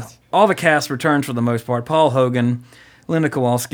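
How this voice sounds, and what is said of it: Usual voice. Nothing is said of it.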